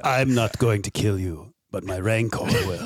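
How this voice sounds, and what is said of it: Good imitation of a character's voice. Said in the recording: “That's a pretty good, that's a really good impression.”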